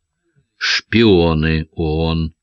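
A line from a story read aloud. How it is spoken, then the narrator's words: Even-voiced correction. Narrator (Russian): таким же ровным голосом поправил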